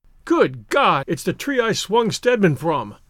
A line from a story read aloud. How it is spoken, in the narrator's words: he cried, and a strange fear thrilled him